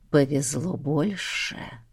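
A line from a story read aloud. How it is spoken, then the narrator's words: Intimate whisper against lips. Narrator (Russian): прошептал он в ее с готовностью раскрывшиеся губы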